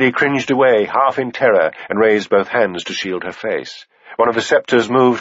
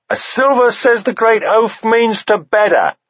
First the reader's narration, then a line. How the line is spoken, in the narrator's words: someone japed